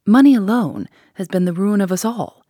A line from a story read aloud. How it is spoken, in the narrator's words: she bitterly exclaimed